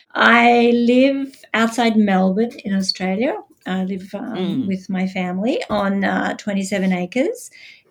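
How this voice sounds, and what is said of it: Australian accent. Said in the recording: “I'm Australian, as you can probably tell by my accent. Gives me away every time.”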